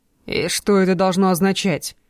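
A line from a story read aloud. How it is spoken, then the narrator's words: Growling. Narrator (Russian): Прорычал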